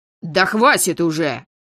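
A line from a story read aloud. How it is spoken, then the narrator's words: Barking. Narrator (Russian): рявкнул Брион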